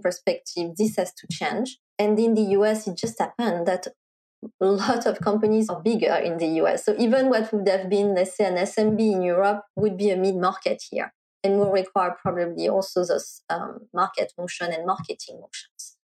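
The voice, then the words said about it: Noticeable foreign accent. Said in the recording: “in spite of my accent.”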